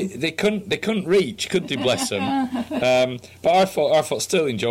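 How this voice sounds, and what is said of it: Usual voice. Nothing is said of it.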